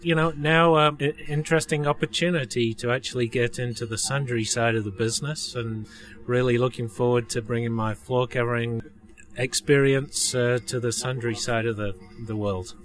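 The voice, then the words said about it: English accent. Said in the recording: “why you have this accent ... I'm originally from England”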